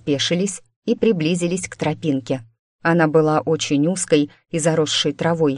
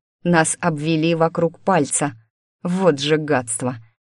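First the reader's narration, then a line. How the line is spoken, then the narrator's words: Hissed through gritted teeth. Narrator (Russian): процедил сквозь зубы Иван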